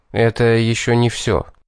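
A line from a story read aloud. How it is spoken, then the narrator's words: Cold. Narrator (Russian): холодно сказал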